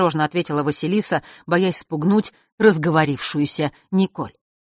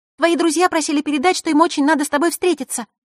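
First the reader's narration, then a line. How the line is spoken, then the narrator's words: Sudden rapid chatter. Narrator (Russian): неожиданно затараторила Николь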